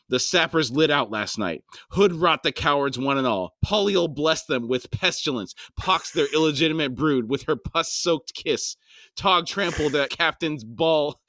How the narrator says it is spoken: Solmar snarled

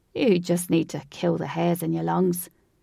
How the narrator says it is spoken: Seb laughed slowly and said

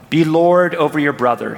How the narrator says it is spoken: said

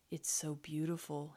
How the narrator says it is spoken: murmured

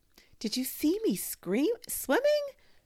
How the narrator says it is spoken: squeaked Roo

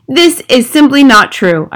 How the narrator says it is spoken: I cried

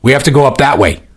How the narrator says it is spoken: Sea Captain shouted at her

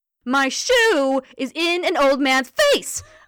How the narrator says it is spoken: I shouted, screaming into his ear with much more gusto than I intended

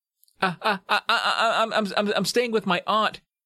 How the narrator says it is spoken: stammered

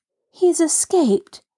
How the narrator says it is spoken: Nancy exclaimed in bitter disappointment

